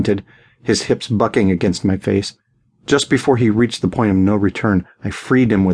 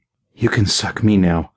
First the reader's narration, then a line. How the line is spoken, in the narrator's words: breathed